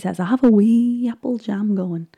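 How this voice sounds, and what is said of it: Poor put-on Scottish accent. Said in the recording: “that was the worst Scottish accent I've ever done”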